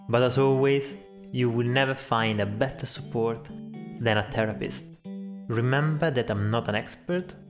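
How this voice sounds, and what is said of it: Speaks with an unusual accent. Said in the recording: “my weird accent”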